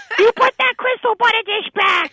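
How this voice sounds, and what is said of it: Comic scolding mom character voice. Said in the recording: “she sounds like a Fran Drescher ... She's Marge Simpson.”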